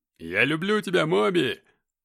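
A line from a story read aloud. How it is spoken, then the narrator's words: Drunken yelling. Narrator (Russian): орал он в ответ не менее пьяно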